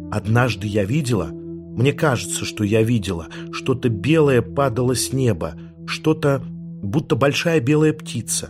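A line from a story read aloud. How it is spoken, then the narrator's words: Mysterious whisper. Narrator (Russian): Таинственным шепотом сказала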